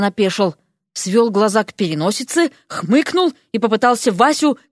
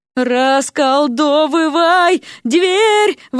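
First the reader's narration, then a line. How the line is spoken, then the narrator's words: Yelling between jumps. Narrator (Russian): вопила Вася в промежутках между прыжками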